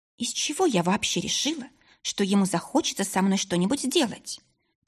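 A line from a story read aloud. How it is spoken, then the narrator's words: Quiet self-reproach. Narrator (Russian): Тихо укорила девушка себя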